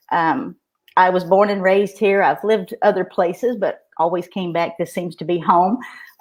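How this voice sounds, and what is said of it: Kentucky Southern accent. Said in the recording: “they can probably tell by my dialect that I am from Kentucky”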